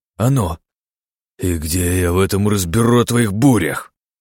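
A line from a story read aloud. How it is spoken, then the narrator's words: Growled. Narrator (Russian): прорычал Эсфири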